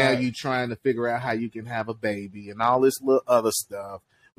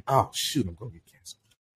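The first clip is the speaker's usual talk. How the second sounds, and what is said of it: Whispering. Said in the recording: “keep whispering”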